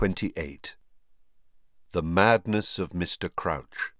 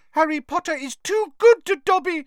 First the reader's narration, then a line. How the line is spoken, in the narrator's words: he squeaked, wiping large tears out of his enormous eyes